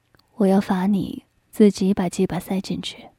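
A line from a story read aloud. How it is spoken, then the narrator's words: Tender whisper in ear. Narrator (Chinese): 飞雪小嘴儿却在我耳边温柔地说道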